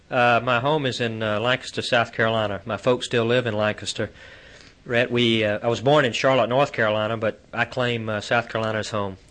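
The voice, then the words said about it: Southern American drawl. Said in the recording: “all of you, as we've mentioned before, will be talking with southern drawls ... Mine is a little bit less subdued than yours ... I still talk like I'm from the South”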